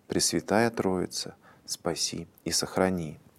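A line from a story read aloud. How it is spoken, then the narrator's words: Whispered prayer. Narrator (Russian): Мать шептала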